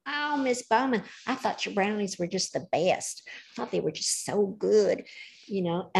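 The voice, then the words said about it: Convincing put-on Southern American accent. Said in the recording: “bringing out the Southern accent from California is pretty impressive ... You know your way around the accent.”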